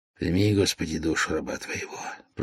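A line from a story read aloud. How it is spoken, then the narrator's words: Tearful whisper. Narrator (Russian): прошептал князь, утирая слезу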